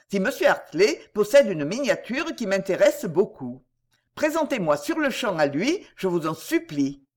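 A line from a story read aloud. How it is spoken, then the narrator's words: Brisk, eager. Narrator (French): dit vivement Clarence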